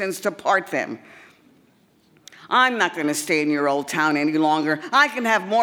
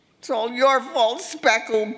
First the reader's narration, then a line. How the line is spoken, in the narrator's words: bawled as he vaulted over the back fence